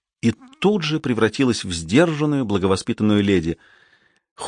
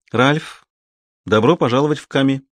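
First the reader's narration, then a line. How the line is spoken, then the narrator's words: Even, flat tone. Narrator (Russian): ровным тоном сказала она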